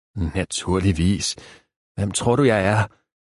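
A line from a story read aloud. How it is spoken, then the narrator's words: Snappish reply. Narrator (Danish): svarede manden vrissent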